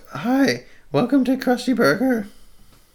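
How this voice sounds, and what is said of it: Cracking teenage cartoon voice. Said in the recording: “my voice is breaking ... You sound like some cartoon character ... The Simpsons, the teenager.”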